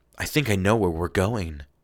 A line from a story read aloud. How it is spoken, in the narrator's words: I whispered